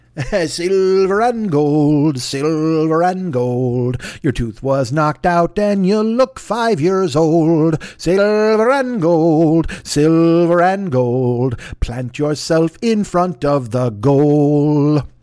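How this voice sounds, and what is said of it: Sung imitation of another person's voice. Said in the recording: “I might have hurt my throat doing a Burl Ives impression. ... It wasn't really a Burl Ives impression. ... That was more of a Merle Ives, I think, or a Burl Hives.”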